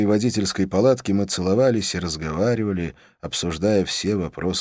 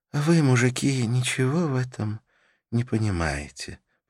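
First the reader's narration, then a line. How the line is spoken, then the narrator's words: Sleepy voice. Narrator (Russian): произнесла Карла сонным голосом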